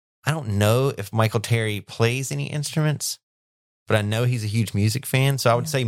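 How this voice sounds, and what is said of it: Usual voice. Nothing is said of it.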